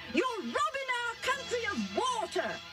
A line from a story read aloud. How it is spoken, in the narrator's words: they yelled